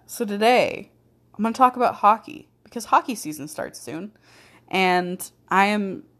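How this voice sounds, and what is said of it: Rough, sick-sounding tired voice. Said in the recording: “Sorry if my voice sounds like garbage as well. Something's going around my work and not feeling great. ... I'm also very tired”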